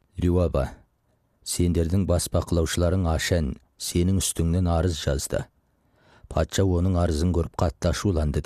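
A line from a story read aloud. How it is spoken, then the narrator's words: Plain. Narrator (Kazakh): деді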